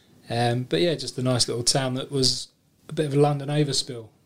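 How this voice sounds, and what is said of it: Cockney-influenced English accent. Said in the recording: “combined Cockney accent”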